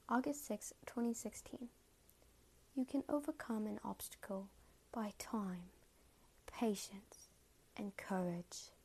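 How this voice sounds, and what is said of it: Put-on British accent. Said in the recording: “I'll say it in a British accent.”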